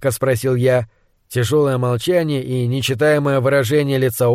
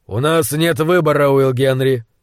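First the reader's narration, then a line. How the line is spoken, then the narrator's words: Dry, man. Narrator (Russian): сухо сказал он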